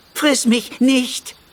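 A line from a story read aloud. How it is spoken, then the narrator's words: Small creature pleading. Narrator (German): flehte der kleine Happerflap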